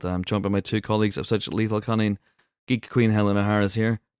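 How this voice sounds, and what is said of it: Congested, sick-sounding voice. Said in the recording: “You may hear from my voice that was a very, very wise decision. Can't shake this cold, guys. Can't shake this cold.”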